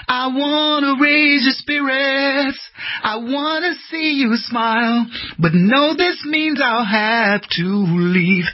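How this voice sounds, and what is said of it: Hoarse singing voice. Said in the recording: “I'm hoarse, I'm not singing very well”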